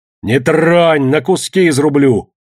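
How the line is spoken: Threatening shout. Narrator (Russian): закричал Егор

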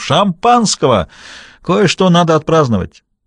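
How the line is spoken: Shouted. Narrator (Russian): крикнул бармену

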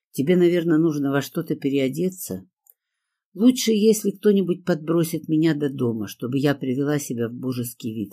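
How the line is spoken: Plain. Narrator (Russian): ответила я

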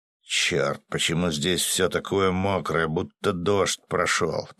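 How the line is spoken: Oak grumbling. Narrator (Russian): проворчал дуб

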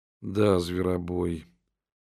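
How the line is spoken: Barely audible. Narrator (Russian): ответила Джудит чуть слышно

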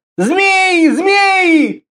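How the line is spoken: Continuous shouting. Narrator (Russian): Один из них кричал, не переставая

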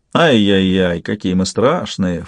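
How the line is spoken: Mocking snort. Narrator (Russian): фыркнул Элкон

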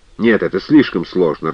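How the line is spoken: Irritated interruption, barker. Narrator (Russian): раздраженно перебил зазывало

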